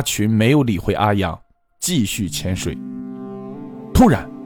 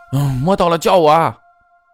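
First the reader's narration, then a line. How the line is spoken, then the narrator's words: Calling out loudly. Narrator (Chinese): 阿阳总是叫喊着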